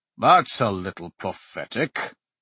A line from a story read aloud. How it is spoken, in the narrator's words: Hart rumbled